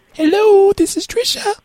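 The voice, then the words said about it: Man putting on unconvincing female voice. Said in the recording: “my girl voice really needs some work”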